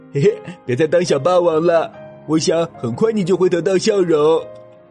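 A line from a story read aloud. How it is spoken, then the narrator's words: Laughing. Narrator (Chinese): 小熊笑着说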